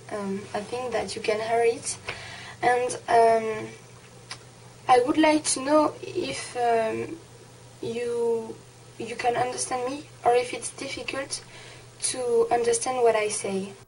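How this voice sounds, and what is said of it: French accent in English. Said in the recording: “my French accent ... the French accent ... it just sounds sexy”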